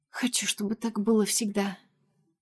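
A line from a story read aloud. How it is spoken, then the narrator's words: Barely audible whisper, girl. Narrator (Russian): еле слышно шепчет девушка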